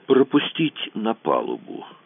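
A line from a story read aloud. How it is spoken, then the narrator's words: Quiet order. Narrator (Russian): распорядился Кацуба тихо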